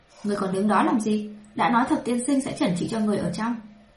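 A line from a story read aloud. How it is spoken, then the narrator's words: Angry. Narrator (Vietnamese): tức giận nói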